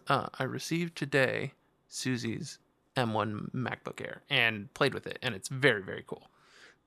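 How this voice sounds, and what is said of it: Whispering quietly into the microphone. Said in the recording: “I'm going to be real quiet about this ... you probably didn't hear me whispering, but I'm whispering right in the microphone”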